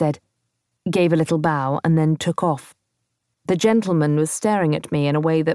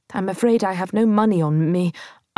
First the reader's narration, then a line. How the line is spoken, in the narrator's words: I stammered